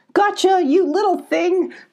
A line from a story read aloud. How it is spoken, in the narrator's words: called Abby, laughing